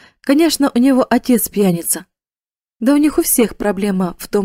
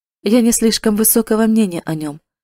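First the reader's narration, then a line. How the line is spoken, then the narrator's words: Careless, offhand tone. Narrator (Russian): сказал он небрежным тоном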